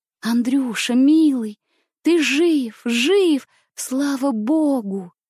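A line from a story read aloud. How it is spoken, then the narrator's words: Joyful whisper. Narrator (Russian): радостно прошептала Сибирочка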